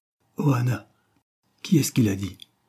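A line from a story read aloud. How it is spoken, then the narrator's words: Distressed exclamation. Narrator (French): s'écria d'un ton désolé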